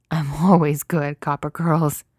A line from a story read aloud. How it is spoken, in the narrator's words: says breathlessly, with an undercurrent of wild, distracted laughter in his voice